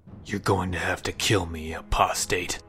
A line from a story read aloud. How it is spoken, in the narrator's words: growled